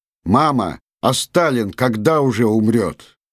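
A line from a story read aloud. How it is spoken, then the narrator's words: Boy's loud ringing question. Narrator (Russian): мальчик Лёва на весь вагон звонким своим голосом спрашивает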